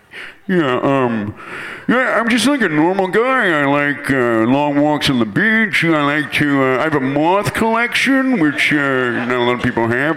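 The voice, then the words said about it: Imitates another person's voice. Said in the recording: “my impression, I'd like to do Ted Levine”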